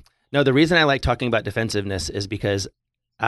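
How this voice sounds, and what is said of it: Usual voice. Nothing is said of it.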